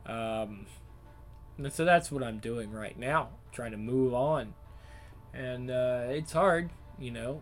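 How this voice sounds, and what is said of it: Strained voice. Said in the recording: “my voice is kind of strained”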